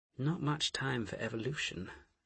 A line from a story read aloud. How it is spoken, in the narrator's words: Asher murmured